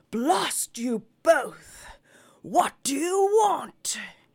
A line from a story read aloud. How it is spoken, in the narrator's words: he roared out at them ever so far off, so that it struck them with an icy shiver